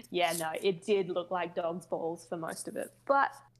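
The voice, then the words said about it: Australian accent. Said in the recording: “your Aussie accent”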